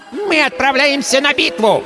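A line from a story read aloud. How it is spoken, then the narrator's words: Pompous childish squeak. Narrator (Russian): пафосно пропищал малявка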